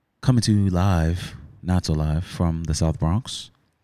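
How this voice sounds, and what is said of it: Low, sultry bedroom voice. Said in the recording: “Bedroom voice.”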